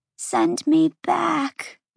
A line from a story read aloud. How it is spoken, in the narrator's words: the female whimpered